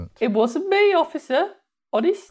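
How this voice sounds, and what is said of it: Put-on Birmingham accent. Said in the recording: “in a Birmingham accent ... That's quite good”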